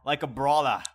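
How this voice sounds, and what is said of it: New York Bronx accent. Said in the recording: “like the New York, like Bronx accent?”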